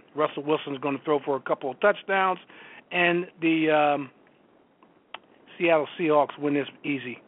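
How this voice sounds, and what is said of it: Hoarse, strained voice. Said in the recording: “Sounds like you're losing your voice over there. ... a little frog in my throat.”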